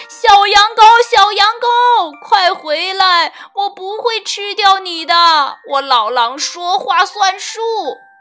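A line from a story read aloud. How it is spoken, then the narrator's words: Old wolf calling loudly. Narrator (Chinese): 老狼大声叫起来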